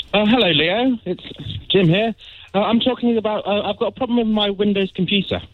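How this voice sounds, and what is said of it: Posh British accent. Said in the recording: “it sounds so posh when you say it”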